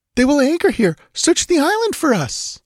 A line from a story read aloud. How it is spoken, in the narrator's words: she cried in quick panic